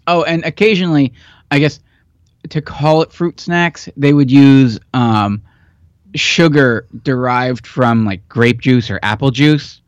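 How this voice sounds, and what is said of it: Hoarse, failing voice. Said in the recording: “I'm losing my voice again”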